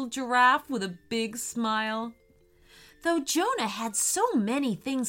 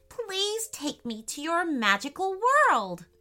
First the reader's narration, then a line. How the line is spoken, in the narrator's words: exclaimed Jonah